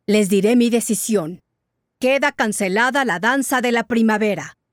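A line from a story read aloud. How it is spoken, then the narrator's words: Growled by a jaguar. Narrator (Spanish): gruñó el jaguar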